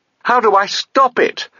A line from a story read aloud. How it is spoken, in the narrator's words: she spluttered to Mogget, as still more water cascaded over her head